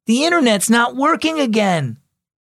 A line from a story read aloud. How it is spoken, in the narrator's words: called out from the family room